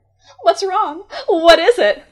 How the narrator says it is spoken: the girl cried

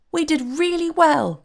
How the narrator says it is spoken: cried the fairy in a pleased voice

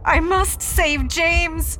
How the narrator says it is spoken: She wails

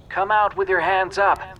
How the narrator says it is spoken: A bullhorn squealed

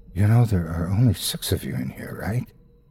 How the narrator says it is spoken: whispers in my ear

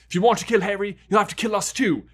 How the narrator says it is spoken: said fiercely, though the effort of standing upright was draining him

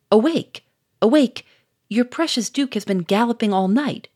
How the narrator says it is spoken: cried Doucet

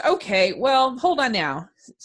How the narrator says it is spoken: said Yes

